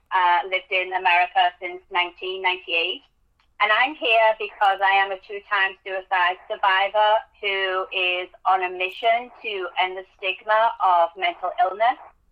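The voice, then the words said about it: English accent. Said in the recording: “As you can tell from my accent, I am English.”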